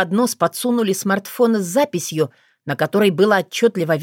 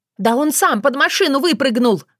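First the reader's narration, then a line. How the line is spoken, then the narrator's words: Yelled. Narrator (Russian): заорала Валентина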